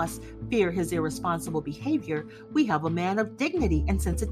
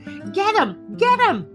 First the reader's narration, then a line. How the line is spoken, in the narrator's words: screeched